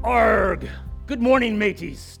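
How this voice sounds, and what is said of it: Pirate voice. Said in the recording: “Talk Like a Pirate ... I'd preach my entire sermon like this”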